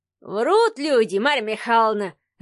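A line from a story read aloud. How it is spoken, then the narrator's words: Old man laughing. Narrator (Russian): расхохотался старичок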